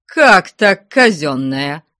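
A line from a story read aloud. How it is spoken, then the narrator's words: Shouting. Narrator (Russian): закричал Никифор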